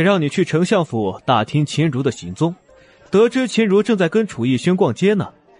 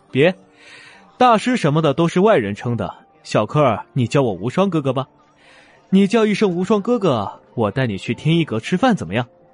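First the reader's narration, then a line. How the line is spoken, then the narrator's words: Cheerful coaxing tone. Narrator (Chinese): 玉无双像诱拐儿童那样笑嘻嘻的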